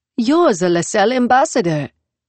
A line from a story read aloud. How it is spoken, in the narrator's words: she said brightly